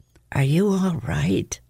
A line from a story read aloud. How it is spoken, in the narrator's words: he whispered